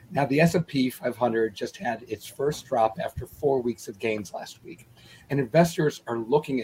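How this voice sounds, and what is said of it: Strained, fading voice. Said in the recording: “As you can tell, I'm losing my voice. It started going out around mid-morning today”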